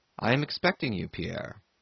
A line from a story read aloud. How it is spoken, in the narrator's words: he said the same voice, but gently and affectionately